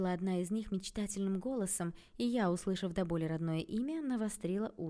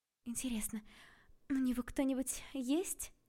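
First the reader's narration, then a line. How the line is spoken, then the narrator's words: Thoughtful question. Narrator (Russian): задумчиво спросила первая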